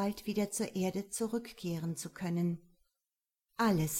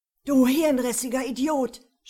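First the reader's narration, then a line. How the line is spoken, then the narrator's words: Angry shout. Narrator (German): schrie Trent sein Gegenüber an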